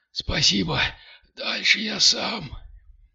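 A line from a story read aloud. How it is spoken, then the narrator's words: Breathless wheeze. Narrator (Russian): Кирилл кое-как отдышался на ходу и прохрипел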